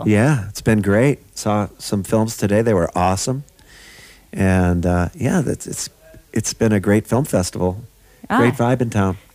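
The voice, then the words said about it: Hoarse, worn-out voice. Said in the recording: “my voice is kind of gone... the altitude's getting to me, and I just scream my brains out in the jam session”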